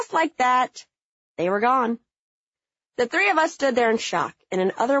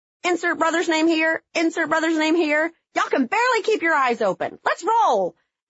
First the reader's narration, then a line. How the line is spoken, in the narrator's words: Kelly, in all her gowned gorgeousness beside him with her hands on her hips, yelling